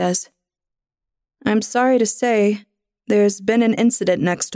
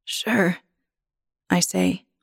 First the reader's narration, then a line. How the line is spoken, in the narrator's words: my voice raspy